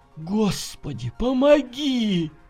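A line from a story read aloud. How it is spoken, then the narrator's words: Silent mental prayer. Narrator (Russian): мысленно взмолился Николай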